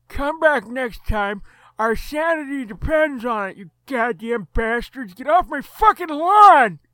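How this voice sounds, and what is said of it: Grumpy old man character voice. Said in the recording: “old man voice”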